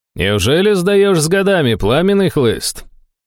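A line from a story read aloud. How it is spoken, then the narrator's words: Cheerful call from afar. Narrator (Russian): Весело окликнул из галереи знакомый голос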